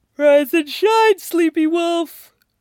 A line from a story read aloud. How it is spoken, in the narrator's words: Styles says, yawning